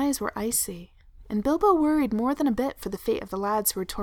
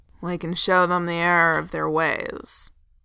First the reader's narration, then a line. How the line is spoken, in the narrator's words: growled, face set in angry lines